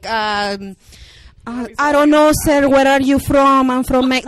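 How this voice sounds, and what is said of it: Exaggerated put-on Mexican accent. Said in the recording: “Can you sound more Mexican? ... like you just crossed the border”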